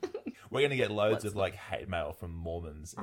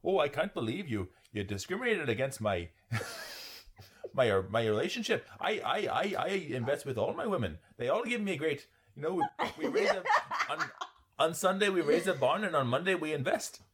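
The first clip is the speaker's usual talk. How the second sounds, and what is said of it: Put-on Canadian/Irish-sounding accent. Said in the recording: “Are all Mormons like Canadian/Irish? ... That was not the appropriate accent for that.”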